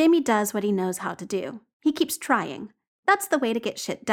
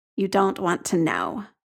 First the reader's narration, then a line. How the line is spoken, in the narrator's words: Jamie says grimly